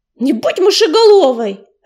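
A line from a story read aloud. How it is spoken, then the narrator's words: Barked. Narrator (Russian): рявкнул Белохвост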